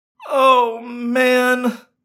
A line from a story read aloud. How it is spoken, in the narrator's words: I moaned